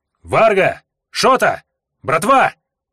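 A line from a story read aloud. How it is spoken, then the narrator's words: Shout echoing in silence. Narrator (Russian): крикнул я в стоящий в абсолютной тишине лес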